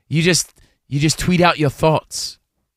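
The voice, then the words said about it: Imitated English accent. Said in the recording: “She's from England, by the way ... Great impression.”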